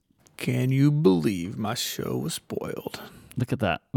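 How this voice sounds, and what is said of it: Impression of Kevin Spacey's Frank Underwood. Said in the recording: “Was that an impression? That's me playing Kevin Spacey playing Frank Underwood. Okay, that's really good.”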